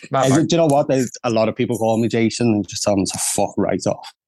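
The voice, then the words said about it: Scouse (Liverpool) accent. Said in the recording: “you've got a Scouse accent”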